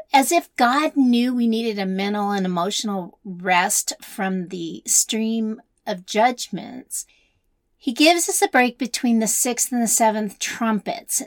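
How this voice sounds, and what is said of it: Raspy voice. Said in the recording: “I'm still getting over my bronchitis, so excuse me for being a little raspy today”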